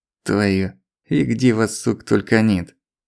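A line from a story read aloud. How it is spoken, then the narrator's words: Muttered through teeth. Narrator (Russian): процедил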